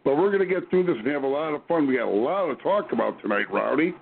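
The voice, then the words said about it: Raspy, hoarse voice. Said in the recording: “Excuse my raspy voice, you guys. It's worse than normal. I'm fighting a little bit of a cold.”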